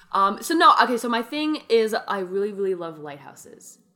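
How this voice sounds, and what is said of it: Mock serious voice. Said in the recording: “this is my serious voice.”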